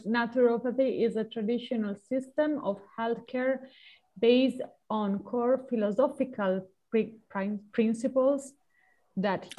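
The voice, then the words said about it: Non-native accented English. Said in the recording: “with my pronunciation, with my accent ... Sorry, my pronunciation ... it's charming”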